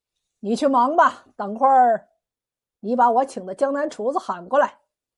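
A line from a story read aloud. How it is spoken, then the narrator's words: With a smile. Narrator (Chinese): 海爷听罢笑了笑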